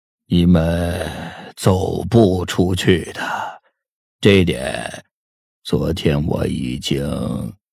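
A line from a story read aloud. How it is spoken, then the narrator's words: Flat, indifferent. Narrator (Chinese): 林凡 淡淡的说道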